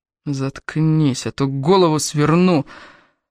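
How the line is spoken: Menacing hiss in ear. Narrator (Russian): прошипел Дон прямо ей в ухо

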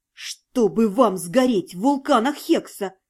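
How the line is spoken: Hissing. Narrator (Russian): прошипела Зальфия

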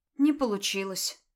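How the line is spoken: Sad girl. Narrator (Russian): грустно констатировала девочка

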